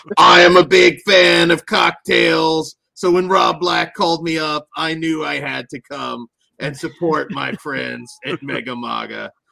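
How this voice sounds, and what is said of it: Imitates another person's voice. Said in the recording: “That wasn't a great impression.”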